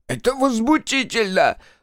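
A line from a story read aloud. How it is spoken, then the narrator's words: Shrill spluttering shriek. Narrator (Russian): взвизгнул он, брызгая слюной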